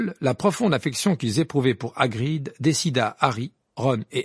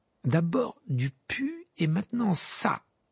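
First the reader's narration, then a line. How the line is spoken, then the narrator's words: Muttered. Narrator (French): marmonna Sibus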